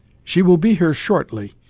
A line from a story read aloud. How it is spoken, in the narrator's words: he said